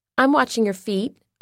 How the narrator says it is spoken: I said

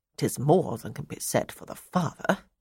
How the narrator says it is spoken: she muttered

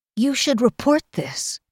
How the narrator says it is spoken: Kell told Gower tightly

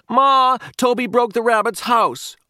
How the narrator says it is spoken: Pete yelled from the hallway

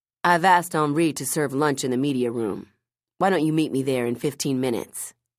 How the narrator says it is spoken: asked

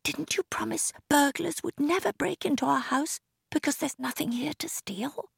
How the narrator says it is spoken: whispered Maggie

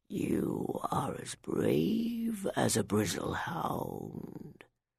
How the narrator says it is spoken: deep voice rumbled

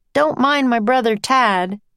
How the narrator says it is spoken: shouted

